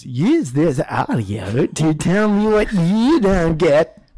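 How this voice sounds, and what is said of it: Robotic text-to-speech voice. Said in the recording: “the robot voice goes”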